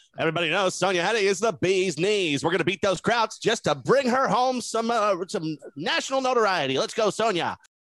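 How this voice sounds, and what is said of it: Convincing put-on transatlantic accent. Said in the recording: “The transatlantic accent was pretty spot on, too.”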